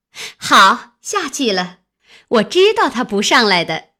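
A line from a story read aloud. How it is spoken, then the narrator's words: Laughing. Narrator (Chinese): 一个笑道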